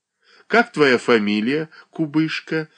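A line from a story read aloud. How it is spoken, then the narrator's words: Woman laughing. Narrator (Russian): засмеялась начальница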